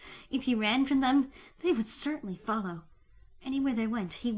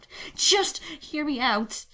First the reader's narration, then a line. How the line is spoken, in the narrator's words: Tony pleaded